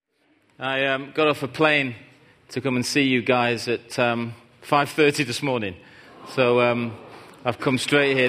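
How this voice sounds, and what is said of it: Northern English accent. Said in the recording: “Sorry for the accent. It's Northern England. ... Manchester area.”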